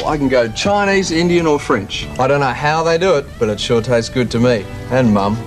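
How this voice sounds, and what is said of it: Broad Australian accent. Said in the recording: “he's got a wide accent, hasn't he? Australian.”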